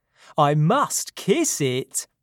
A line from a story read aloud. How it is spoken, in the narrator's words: said happily